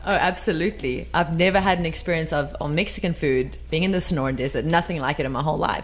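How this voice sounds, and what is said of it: South African accent. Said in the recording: “our South African little view ... anything with a South African accent tastes better ... her accent”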